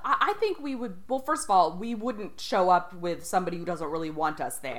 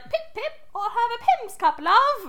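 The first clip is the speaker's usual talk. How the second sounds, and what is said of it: Put-on British accent. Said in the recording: “I would bust out my British accent”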